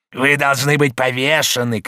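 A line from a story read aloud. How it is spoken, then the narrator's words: Shouting. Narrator (Russian): кричал Дюбуа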